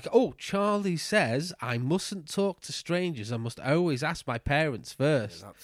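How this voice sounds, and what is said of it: Imitates another voice. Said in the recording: “you didn't do a bad impression there. It was all right.”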